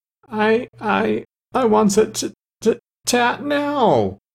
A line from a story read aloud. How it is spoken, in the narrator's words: she wailed